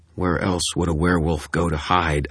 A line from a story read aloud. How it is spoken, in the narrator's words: I snapped